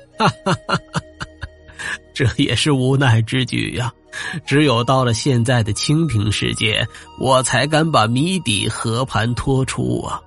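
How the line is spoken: Hearty laughter. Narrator (Chinese): 财管家哈哈大笑

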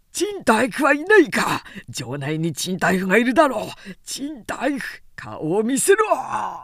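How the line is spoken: Shouted. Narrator (Japanese): と叫んだ

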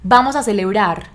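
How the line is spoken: Son shouting. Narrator (Spanish): gritó uno de sus hijos

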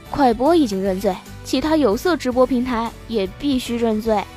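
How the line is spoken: Calm, indifferent. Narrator (Chinese): 老沙 淡淡的说道

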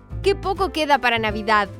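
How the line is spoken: Excited child shouting. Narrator (Spanish): gritó entusiasmado el niño

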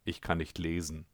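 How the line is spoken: Quiet. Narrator (German): sagte er leise

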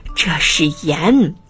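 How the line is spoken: Breathless answer. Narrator (Chinese): 老鼠气喘吁吁地回答

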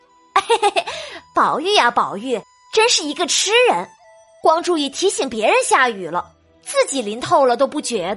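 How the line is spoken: Quiet mocking chuckle. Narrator (Chinese): 宝玉脖梗下的大石头，暗笑宝玉

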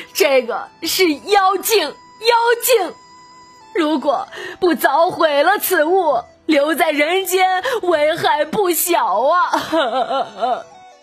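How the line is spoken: Crying. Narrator (Chinese): 说着哭着

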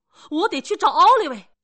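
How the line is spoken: Shouting. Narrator (Chinese): 克里斯多夫喊道

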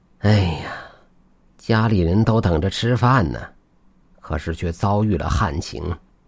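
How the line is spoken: Sighing lament. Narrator (Chinese): 李老汉……不禁摇头叹气

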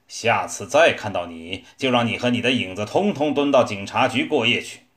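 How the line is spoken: Stern angry roar. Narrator (Chinese): 警察厉声吼道

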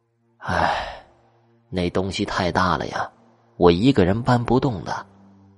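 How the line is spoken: Old man sighing. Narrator (Chinese): 老人叹了一口气，说道

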